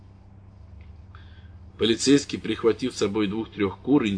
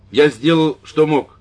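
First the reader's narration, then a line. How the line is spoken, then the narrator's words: Loud priest. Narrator (Russian): сказал священник громко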